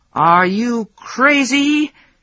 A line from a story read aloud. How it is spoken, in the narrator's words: he yelled